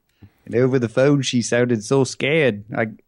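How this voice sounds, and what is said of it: Inconsistent attempted British accent, Australian-sounding. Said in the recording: “I can't hold a consistent British accent ... I don't know that that's a British accent. I think it's very Australian ... I'm attempting a British accent, okay. which is, well, there might be some British in there.”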